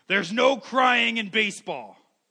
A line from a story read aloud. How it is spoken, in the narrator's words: And he just blurts out, he says